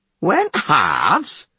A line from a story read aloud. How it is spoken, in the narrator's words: The Reeve sneered